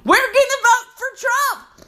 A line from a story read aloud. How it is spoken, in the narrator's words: screaming